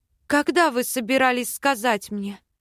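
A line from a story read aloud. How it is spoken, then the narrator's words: Hoarse croak, swallowing. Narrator (Russian): Хриплю, сглатывая вязкую слюну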